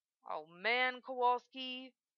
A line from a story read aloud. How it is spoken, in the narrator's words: Lim groans